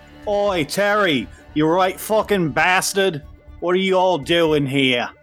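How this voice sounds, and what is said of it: Thick Australian accent. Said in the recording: “You can hear the thick Australian accent”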